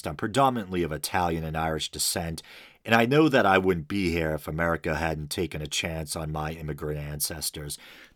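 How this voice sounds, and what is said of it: American Northeast accent. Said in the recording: “it's probably obvious from my accent that I hail from the American Northeast”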